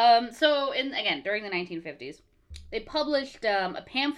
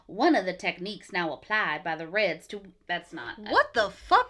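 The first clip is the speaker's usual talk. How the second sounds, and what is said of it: Failed mid-Atlantic accent, drifting southern. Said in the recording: “I had to get my 1950s, like, Katharine Hepburn voice ... I'm usually really good at my like mid Atlantic accent, but it did not. ... it went Bill Clinton so quickly ... I was going to say weirdly southern”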